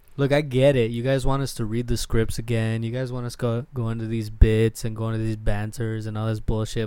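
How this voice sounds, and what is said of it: Mock English accent. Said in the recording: “my fucking stupid English accent? ... my stupid English European fucking accent ... You did it anyway.”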